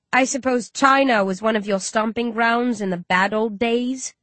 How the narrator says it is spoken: I sneer

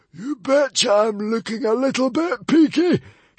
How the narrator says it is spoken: shrieked the hairy, scary librarian

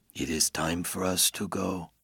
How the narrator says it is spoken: Henry whispers

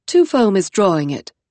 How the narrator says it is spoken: Nine Hibiscus said

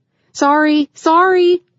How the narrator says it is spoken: she called out as horns blared

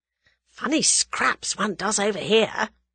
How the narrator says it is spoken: murmured Tommy

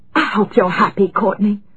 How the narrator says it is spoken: Coralie said in a furious whisper

